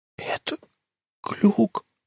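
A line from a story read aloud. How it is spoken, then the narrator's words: Whisper. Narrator (Russian): прошептал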